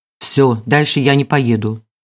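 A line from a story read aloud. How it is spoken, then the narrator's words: Irritated declaration. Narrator (Russian): заявил водитель раздраженно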